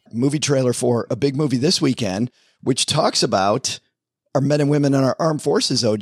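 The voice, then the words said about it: Raspy voice. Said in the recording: “I'm a little under the weather. Listen to this raspy.”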